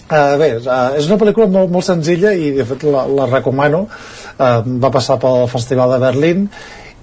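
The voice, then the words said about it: Central Catalan Osona regional accent. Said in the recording (Catalan): “amb aquest accent de d'Osona”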